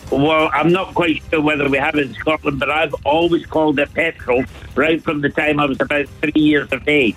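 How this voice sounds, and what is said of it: Glasgow Scottish accent. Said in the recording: “your own Dublin sort of, you know, accent ... Excuse me, Glasgow”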